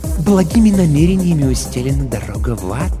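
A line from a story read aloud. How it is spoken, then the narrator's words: Insinuating soft remark. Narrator (Russian): вкрадчиво заметил Пифон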